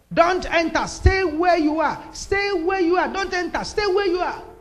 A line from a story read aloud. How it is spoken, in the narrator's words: My friend screamed from where he was